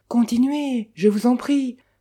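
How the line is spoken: Girl gently pleading. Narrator (French): supplia gentiment la jeune fille

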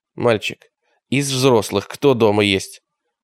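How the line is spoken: Stern question. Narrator (Russian): его невидимый собеседник строго уточнил

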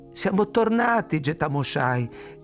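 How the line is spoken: Voice breaking into sob. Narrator (Italian): disse, e la voce si perse in un singhiozzo

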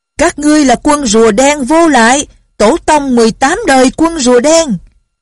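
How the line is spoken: Loud shout. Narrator (Vietnamese): Bỗng có người lớn tiếng la lên

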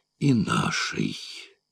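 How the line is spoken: Mumbling. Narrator (Russian): пробормотал Ван Штиллер

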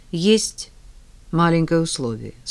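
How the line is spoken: Calm. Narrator (Russian): спокойно продолжила Ольга

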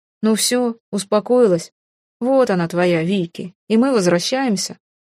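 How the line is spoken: Chuckling. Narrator (Russian): Он хохотнул

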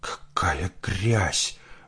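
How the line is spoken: Voice dropping to whisper. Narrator (Russian): голос ее упал до шепота

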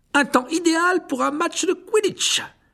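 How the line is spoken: Enthusiastic exclamation. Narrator (French): s'exclama Dubois avec enthousiasme

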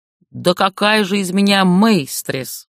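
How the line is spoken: Snorting. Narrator (Russian): фыркнула демоница

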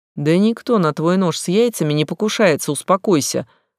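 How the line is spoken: Dismissive snort. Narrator (Russian): хмыкнул Фил

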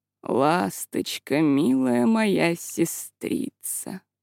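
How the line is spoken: Purring. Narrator (Russian): промурлыкал он

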